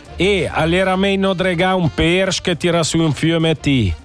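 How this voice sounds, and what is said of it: Put-on regional Italian dialect accent. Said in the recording (Italian): “Provo a simulare il dialetto, okay, l'accento nella maniera giusta.”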